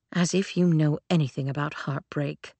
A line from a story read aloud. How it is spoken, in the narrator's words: Claire muttered